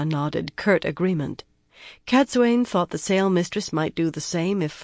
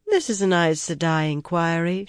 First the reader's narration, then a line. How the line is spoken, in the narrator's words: she replied blandly